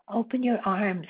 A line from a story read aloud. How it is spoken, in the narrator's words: said kindly